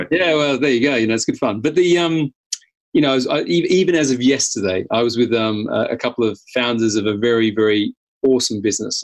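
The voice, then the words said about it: Australian accent. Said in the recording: “I'm obviously originally from Australia with my crazy accent”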